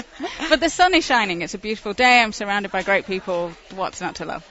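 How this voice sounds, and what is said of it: Lovely non-American accent. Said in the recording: “her lovely accent”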